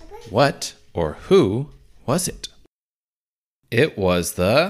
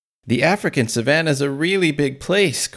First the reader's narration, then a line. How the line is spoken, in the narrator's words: Chris exclaimed